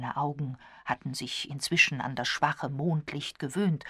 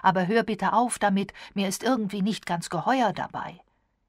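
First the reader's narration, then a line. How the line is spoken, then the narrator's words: Calling out. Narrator (German): rief Hayden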